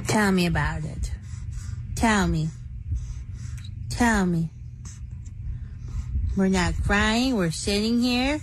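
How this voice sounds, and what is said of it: Tired mother's baby-talk voice. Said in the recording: “great mom voice? This is not ...'s normal voice at all ... tired mom with the baby voice”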